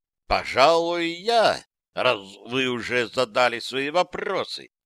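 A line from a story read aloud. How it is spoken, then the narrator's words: Thoughtful. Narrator (Russian): произнес он задумчиво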